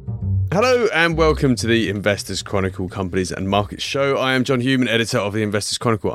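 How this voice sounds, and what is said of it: Slightly hoarse voice. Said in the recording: “I'm a bit hoarse... I shouted myself silly. The voice is coming back, but I'm a little hoarse still.”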